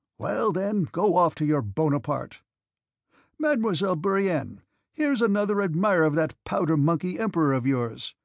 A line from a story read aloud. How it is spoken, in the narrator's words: he exclaimed in excellent French